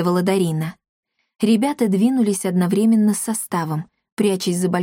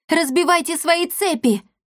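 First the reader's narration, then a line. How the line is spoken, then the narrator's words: Shouting. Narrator (Russian): закричала Дарина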